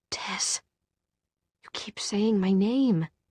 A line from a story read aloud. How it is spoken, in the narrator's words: she murmured